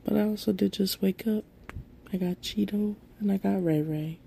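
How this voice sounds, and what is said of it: Slightly sick-sounding voice. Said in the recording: “I sound a little sick.”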